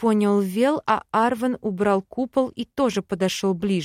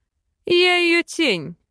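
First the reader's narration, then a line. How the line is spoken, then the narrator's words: Mocking. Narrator (Russian): насмешливо бросил Бальтазар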